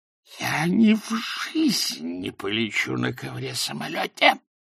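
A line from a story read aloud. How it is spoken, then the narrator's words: Whispered. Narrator (Russian): прошептал он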